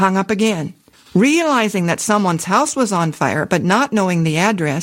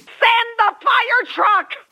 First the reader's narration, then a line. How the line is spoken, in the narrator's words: the hysterical voice screamed